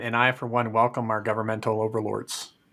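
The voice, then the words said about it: Deadpan ironic delivery. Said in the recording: “He's not being serious. He's really not. ... deadpan irony”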